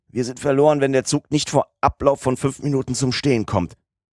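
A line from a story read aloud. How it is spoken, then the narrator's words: Cried out while falling. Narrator (German): Im Fallen noch rief er aus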